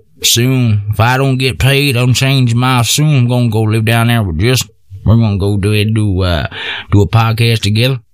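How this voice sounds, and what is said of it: Bad put-on Texas accent. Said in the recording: “This is a bad Texas fucking accent. I didn't realize I was really doing it.”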